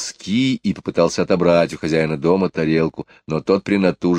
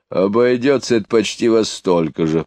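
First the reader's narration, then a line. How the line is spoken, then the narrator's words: Grumbled. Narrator (Russian): проворчал Вердюрен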